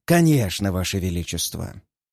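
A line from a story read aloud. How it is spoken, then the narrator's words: Calm, amiable. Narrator (Russian): спокойно отвечает Зодр с любезной улыбкой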